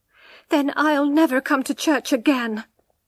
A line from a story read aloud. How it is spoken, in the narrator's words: she cried